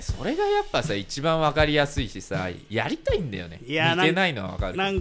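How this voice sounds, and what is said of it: Usual voice. Nothing is said of it.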